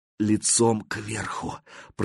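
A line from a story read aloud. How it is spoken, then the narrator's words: Swamp creature whispering. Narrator (Russian): прошептал болотник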